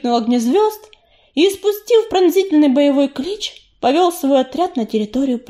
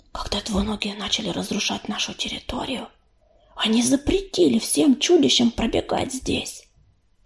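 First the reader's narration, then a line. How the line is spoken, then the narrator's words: Whispered into ear. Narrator (Russian): прошептала Рыжинка на ухо Белочке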